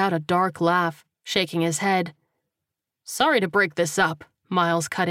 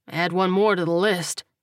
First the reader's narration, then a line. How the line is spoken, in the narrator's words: Coleman said bitterly